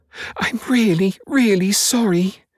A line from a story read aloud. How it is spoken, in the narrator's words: Jerry squeaked